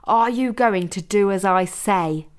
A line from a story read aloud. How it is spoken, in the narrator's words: shouted Janine